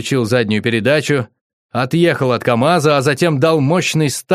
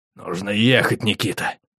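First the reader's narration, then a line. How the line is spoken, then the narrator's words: Growling. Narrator (Russian): он прорычал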